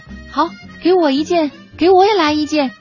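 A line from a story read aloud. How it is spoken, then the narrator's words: Crowd shouting loudly. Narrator (Chinese): 雨中的应聘者都大声的喊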